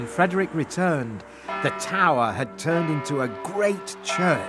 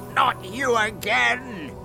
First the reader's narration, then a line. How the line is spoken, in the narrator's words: shouted the magic fish angrily